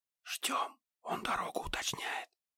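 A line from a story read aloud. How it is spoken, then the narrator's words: Whisper in ear. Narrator (Russian): шепнуло мне на ухо банши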